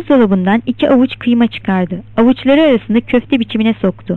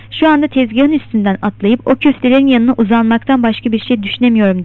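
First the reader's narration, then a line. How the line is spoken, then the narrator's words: Plain. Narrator (Turkish): dedi Mac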